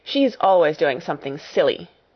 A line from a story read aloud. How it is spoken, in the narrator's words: snapped Lavinia